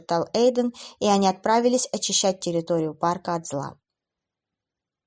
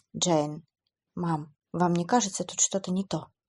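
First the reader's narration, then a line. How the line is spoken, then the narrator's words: Quiet question. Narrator (Russian): тихо спросил он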